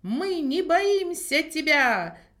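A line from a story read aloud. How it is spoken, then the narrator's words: Shouting. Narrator (Russian): закричал он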